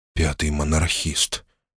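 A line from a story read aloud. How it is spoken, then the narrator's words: Quiet. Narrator (Russian): тихо произнес я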